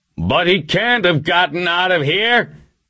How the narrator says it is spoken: Webster yelled

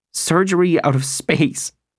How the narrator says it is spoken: she laughed

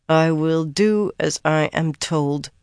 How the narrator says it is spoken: said at last in a flat voice

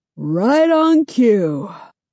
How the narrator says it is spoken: Mark says through a yawn

